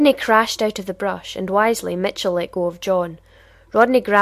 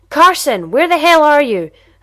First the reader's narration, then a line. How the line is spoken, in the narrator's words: at the top of his very powerful lungs